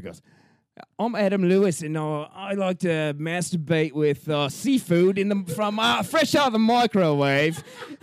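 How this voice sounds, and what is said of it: Put-on British accent. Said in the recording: “you have to do your best British accent”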